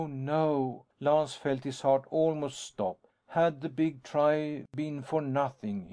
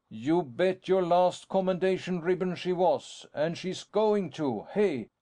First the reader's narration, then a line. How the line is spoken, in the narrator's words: Lance shouted